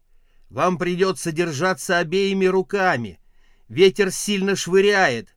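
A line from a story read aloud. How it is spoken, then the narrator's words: Shouted over wind. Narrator (Russian): крикнул он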